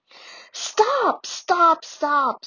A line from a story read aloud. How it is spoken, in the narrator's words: screamed Angelina